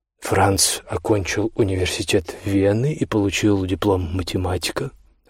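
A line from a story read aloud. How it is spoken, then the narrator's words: Soft reply. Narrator (Russian): ответил он мягко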